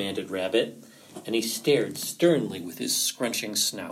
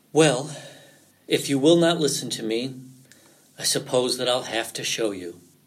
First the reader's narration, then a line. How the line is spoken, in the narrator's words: said Fox with a sigh